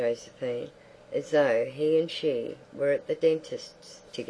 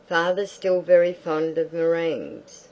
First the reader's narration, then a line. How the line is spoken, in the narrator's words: Cyril yelled